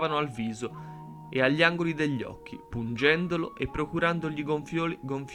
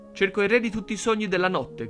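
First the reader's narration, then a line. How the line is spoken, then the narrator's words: Shouting monk. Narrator (Italian): gridò il monaco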